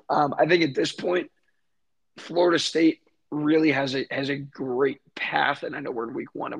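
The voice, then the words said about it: Hoarse, nearly lost voice. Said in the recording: “my voice is gone because I was hitting the war chant all night”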